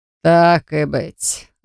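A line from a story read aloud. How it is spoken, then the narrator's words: Growl. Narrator (Russian): рыкнул Даранг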